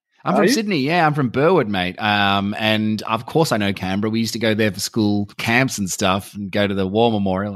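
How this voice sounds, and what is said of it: Australian accent. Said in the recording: “I'm from Sydney, mate. Why could you not tell from my accent?”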